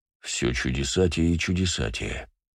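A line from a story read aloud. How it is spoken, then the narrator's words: Muttered. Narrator (Russian): пробормотал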